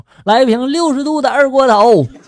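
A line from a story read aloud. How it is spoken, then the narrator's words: Shouting. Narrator (Chinese): 我当时就喊了一声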